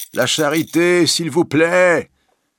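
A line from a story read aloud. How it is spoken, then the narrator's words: Legless beggar shouting. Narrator (French): crie un cul-de-jatte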